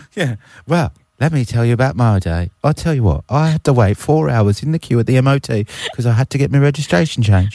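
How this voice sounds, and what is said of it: Put-on English accent. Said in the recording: “I'm sorry to all of our English listeners right now for butchering this accent ... Mine's perfect ... good effort”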